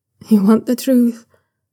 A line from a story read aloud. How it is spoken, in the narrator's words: Shunwei says quietly, lingering on the last word like he's thinking it over